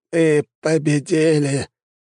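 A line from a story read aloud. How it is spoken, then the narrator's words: Hoarse rasp. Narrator (Russian): прохрипел он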